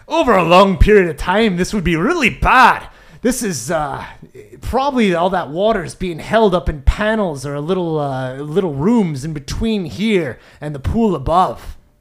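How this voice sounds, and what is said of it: Dwarf character voice, British-sounding. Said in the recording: “do a Glorik voice ... I think I just made him British ... that's really good”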